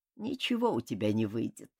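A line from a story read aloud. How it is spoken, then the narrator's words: Calm. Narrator (Russian): спокойно сказал он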